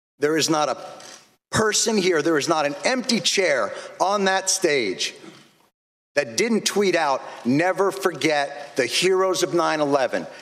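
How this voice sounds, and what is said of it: Angry, forceful speech. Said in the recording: “I sound angry and undiplomatic, but I'm angry”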